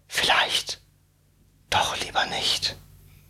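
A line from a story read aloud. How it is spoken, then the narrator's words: Man whispering to himself. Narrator (German): flüsterte er vor sich hin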